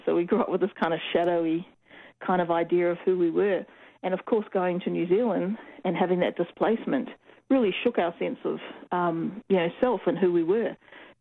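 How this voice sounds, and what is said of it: New Zealand (Kiwi) accent. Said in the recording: “that's a Kiwi accent. Are you a Kiwi? ... Listen to your accent.”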